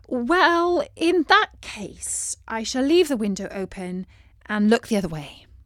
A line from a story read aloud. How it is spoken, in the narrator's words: said Beatrice